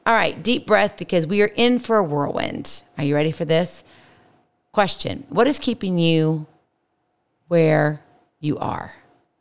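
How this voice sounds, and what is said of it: Extra raspy voice. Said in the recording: “I love to scream and yell. So my voice is a little extra raspy.”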